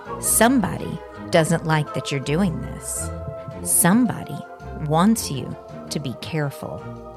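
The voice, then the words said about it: Creepy put-on voice. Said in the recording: “now I have to get in my creepy voice”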